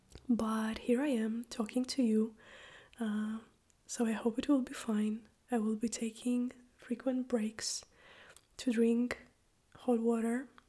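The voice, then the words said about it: Strained, sick-sounding voice. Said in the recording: “as you can probably hear, my voice is really funny. I am a little bit sick ... I keep losing my voice a little bit”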